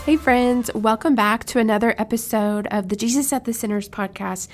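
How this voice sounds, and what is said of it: Voice sounds off after a cold. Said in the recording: “Excuse my voice, it might sound a little crazy. I just got over a cold”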